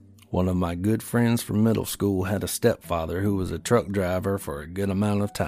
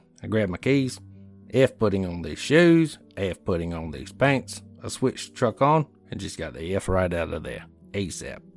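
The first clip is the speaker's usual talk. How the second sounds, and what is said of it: Put-on Australian accent. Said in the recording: “that was my Australian accent.”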